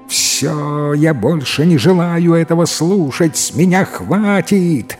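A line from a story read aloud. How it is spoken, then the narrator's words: Angry shouting. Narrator (Russian): злобно кричала жена брата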